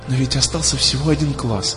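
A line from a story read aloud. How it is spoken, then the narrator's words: Trembling whisper. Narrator (Russian): шептала ему Алиса дрожащим голосом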